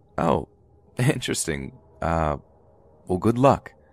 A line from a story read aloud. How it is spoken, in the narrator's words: kind of chuckled and said